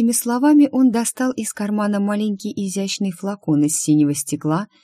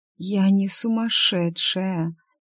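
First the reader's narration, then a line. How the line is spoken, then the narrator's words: Hoarse rasp. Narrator (Russian): прохрипела она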